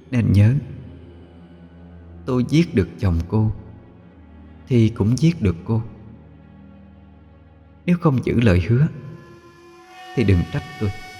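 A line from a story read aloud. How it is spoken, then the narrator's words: Soft whisper. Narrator (Vietnamese): khẽ thì thầm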